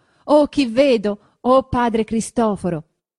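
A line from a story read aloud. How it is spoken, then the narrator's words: Shouted. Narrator (Italian): Lucia gridando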